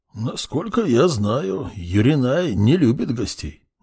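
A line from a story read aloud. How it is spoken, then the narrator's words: Displeased mutter. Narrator (Russian): недовольно буркнул он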